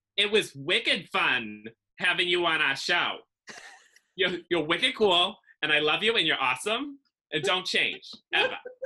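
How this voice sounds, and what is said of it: Nasal Massachusetts accent. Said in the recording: “It's wicked bad. ... I have like this nasally, awful, like feminine Massachusetts accent that I hate ... it's got a lot of charm.”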